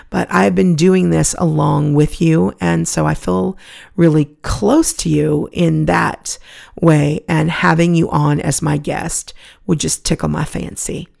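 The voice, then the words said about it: Gravelly, hoarse voice. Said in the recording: “give my voice a little bit of a rest ... thank you for putting up with the gravel”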